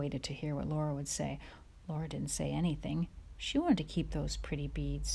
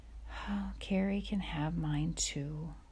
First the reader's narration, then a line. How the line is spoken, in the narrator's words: she said slowly